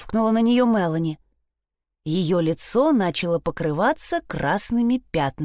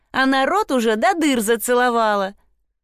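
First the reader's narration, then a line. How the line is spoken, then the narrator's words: Giggling. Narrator (Russian): хихикнула Труда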